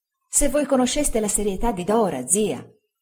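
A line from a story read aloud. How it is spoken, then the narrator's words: Exclaiming. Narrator (Italian): esclamai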